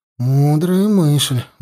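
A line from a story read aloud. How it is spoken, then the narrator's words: Sigh. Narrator (Russian): вздохнул Славка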